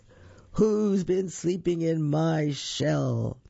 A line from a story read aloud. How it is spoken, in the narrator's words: someone say in a great big voice